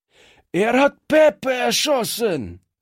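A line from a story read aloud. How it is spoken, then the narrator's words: Shouted. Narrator (German): schrie einer der Strolche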